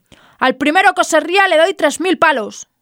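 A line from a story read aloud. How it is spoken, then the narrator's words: Furious captain shouting. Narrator (Spanish): El capitán, furioso, gritó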